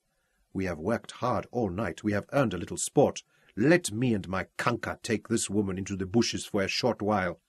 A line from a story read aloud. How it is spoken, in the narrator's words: he murmured